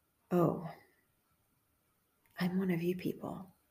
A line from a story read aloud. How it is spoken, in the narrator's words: with tears of relief, I sighed to myself